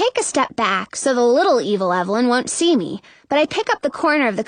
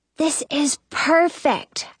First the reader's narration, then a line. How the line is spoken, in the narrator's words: whisper